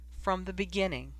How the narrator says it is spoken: she said as gently and as professionally as she could manage

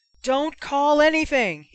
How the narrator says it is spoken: shouted frantically

